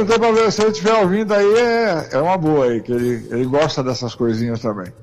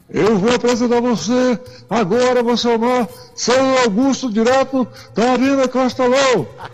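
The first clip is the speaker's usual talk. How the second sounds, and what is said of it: Imitates a sports radio announcer's voice. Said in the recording (Portuguese): “Não é assim, né, que ele fala, mais ou menos?... É, desse jeito mesmo... tu tá imitando, tu tá de sarro”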